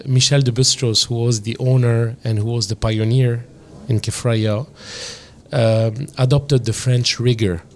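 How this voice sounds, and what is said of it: French-influenced Lebanese accent. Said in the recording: “we were under the French mandate ... the influence of France in Lebanon is uh, absolutely real. Uh, you can hear that in my accent”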